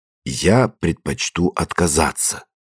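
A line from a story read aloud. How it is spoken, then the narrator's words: Respectful, measured reply. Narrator (Russian): ответил он почтительно, с расстановкой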